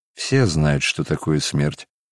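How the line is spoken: Sad reply. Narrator (Russian): ответил Варавва грустно

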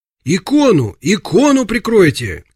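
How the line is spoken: Shouted. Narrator (Russian): крикнул кто-то

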